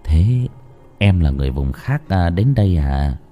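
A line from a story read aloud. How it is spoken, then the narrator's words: Soft murmur. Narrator (Vietnamese): Tú cẩn thận đỡ người đẹp xuống, thủ thỉ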